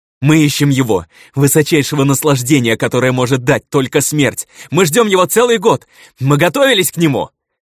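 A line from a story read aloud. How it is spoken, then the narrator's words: Young man yelling, struggling. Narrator (Russian): Орал парень, вырываясь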